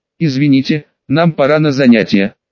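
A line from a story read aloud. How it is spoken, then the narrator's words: Suppressing laughter. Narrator (Russian): сказал я, давя в себе порыв рассмеяться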